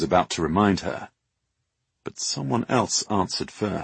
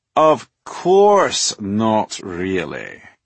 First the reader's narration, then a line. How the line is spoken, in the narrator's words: said the voice, with a drawl of exaggerated patience